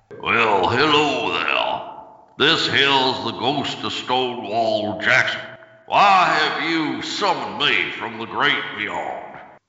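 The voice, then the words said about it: Deep old Southern ghost character voice. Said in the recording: “throwing his voice ... I have a very deep voice”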